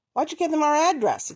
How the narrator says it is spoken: he called out

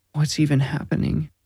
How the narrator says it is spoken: Robin whimpered

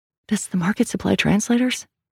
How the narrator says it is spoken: Sal whispered

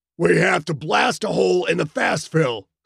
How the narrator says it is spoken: Skipper said, shouting to be heard

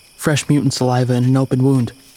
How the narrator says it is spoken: I said

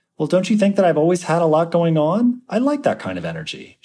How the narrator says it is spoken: says

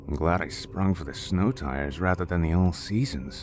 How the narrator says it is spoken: James said under his breath

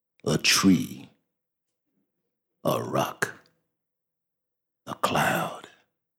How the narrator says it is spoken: The old man whispered

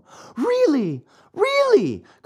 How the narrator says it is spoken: cried the marionette, jumping around with joy

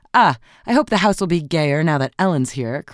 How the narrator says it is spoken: cried Mrs

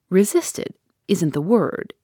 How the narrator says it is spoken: answered Betteridge

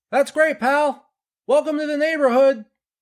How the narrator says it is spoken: Phil shouted back

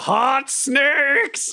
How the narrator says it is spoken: I just yell

